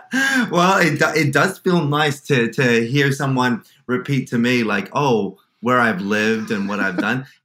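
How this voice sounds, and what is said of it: Australian accent. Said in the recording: “You grew up in Sydney. That's the accent I'm hearing.”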